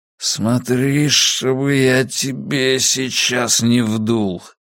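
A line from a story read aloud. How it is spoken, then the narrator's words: Hoarse wheeze. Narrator (Russian): захрипел Драккайнен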